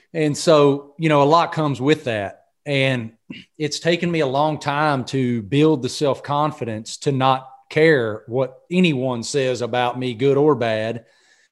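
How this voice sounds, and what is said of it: Southern American accent. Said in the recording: “with a Southern accent”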